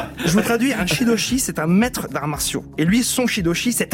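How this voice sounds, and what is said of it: Usual voice. Nothing is said of it.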